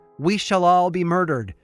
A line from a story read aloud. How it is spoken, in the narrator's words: Bridget shout from the tap room